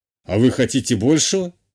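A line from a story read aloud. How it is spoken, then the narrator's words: Wry snort. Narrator (Russian): хмыкнул канцлер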